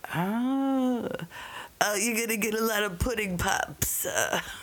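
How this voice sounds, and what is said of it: Imitates another person's voice. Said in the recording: “your Cosby impression”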